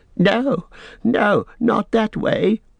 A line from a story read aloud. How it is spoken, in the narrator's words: wailed Smeagol